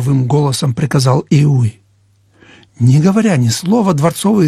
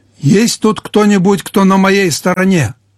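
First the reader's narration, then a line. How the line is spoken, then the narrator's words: Shouting at full voice. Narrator (Russian): крикнул он во весь голос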